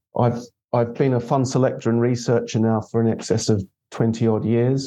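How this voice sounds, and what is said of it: Australian accent. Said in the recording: “as you can tell from the accent, I, I do have an Australian heritage”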